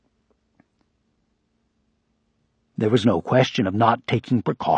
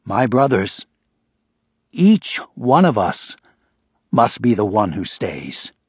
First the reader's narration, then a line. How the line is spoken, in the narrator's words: Father Panlu cried in a ringing voice